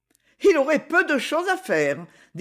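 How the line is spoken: Laughing. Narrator (French): dit-elle en riant

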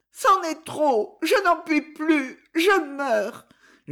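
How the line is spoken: Moaning, dying woman. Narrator (French): gémissait la malheureuse

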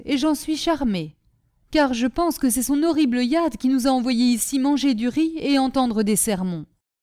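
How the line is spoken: Exclaimed. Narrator (French): s'écria Gulchen Rouz

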